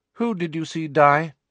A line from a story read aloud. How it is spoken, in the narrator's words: she asked, her tone indifferent